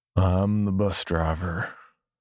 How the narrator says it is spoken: he said, his voice low and drawled, as if he was drugged or on drugs

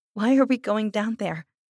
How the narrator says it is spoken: I asked, and I couldn't control my voice from shaking a little

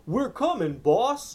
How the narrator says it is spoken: Max's henchmen were clomping down the underground hallway, yelling

